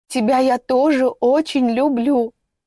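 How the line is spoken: Sobbing harder. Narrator (Russian): Соня разрыдалась еще сильнее

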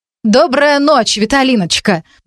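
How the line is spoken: Friendly call. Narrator (Russian): доброжелательно крикнула Клавдия

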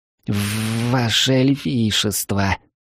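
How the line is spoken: Hoarse wheeze. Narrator (Russian): просипел он

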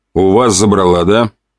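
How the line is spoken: Snort. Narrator (Russian): хмыкнул я

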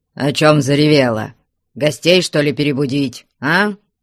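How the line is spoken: Menacing question. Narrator (Russian): Грозно спросил именинницу Потап Максимыч

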